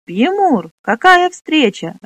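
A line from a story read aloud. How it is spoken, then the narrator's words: Joyful exclamation. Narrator (Russian): радостно воскликнул Фнор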